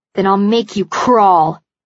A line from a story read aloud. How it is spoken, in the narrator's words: she snarls